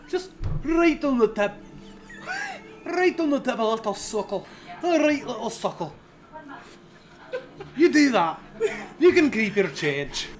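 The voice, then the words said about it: Fairly good put-on Scottish accent. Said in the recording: “I'm actually genuinely surprised at how good our Scottish accent is.”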